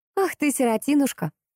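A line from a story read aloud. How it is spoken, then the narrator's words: Laughing. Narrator (Russian): рассмеялась Поликсена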